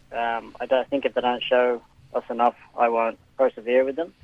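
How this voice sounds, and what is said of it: Irish accent. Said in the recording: “you've held this accent, but you're actually Australian born ... went to Ireland for a stint, and then just couldn't shrug the accent”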